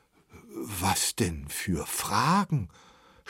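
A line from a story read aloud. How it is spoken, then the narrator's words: Stammering. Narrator (German): stammelte Brinkmann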